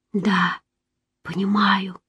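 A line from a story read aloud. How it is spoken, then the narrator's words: Whisper. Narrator (Russian): прошептала я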